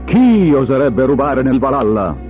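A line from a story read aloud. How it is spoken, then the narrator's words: Thunderous godly roar. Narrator (Italian): tuonò Odino, re degli dei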